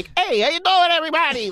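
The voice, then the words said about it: Imitates another person's voice. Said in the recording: “my Giuliani would be me going like ... it would just be stupid”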